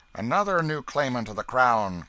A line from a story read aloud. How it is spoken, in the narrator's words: cried the officer